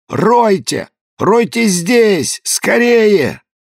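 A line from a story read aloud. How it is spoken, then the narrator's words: Child screaming, distorted voice. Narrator (Russian): ребенка, который кричал не своим голосом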